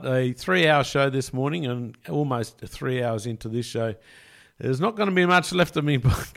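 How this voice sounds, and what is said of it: Hoarse, strained, worn-out voice. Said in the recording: “I feel like I'm losing my voice after a bit of dart commentary last night”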